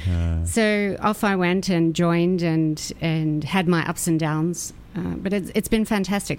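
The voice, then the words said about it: Australian accent. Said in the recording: “I sense a little bit of accent there ... you're not a native New Yorker ... I'm an Aussie ... through and through, mate.”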